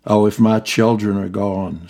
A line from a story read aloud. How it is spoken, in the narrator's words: said Shaneale